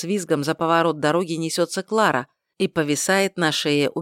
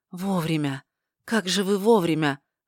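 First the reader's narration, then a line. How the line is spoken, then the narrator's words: Breathed, barely audible. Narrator (Russian): выдохнула Мария одними губами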